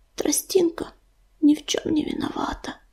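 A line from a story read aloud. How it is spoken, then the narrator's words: Whisper. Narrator (Russian): прошептал он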